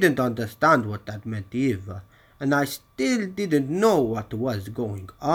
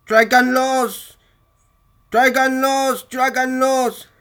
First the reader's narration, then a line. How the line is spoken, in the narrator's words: the noise became deafening and I could finally make out what they were shouting